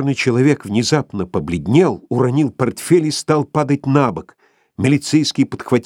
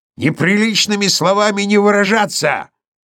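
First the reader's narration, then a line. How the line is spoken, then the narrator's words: Sudden bark, dog. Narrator (Russian): Вдруг гаркнул пес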